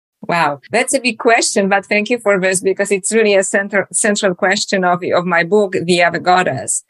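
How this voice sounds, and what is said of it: Polish accent. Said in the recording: “as you can hear from my accent, I was born in Poland originally”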